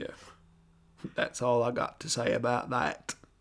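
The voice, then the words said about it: Forrest Gump character voice impression. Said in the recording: “my Forrest Gump impression”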